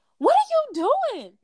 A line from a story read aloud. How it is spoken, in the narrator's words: she saw AJ on her couch and she screamed